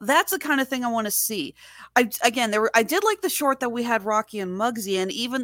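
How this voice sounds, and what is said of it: Usual voice. Nothing is said of it.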